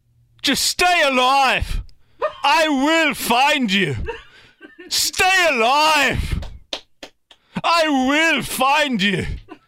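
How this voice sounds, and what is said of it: Put-on Irish-British mixed accent. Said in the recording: “It's kind of an Irish, British mix. ... It's pretty good. It's not bad.”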